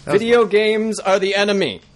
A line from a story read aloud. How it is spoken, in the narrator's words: he shouted